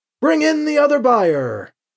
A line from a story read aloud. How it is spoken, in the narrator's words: the heretic called out